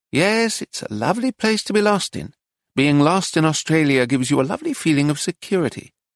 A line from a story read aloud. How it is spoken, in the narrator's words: he said dreamily